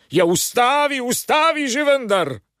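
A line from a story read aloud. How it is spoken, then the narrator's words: Louder shouting. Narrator (Slovenian): Sosed pa je še bolj glasno vpil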